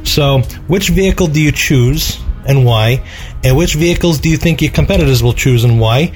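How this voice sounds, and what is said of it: New York accent. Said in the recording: “I like this guy's New York accent.”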